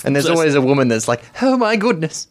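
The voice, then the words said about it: Impression of an excited woman. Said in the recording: “a very good impersonation”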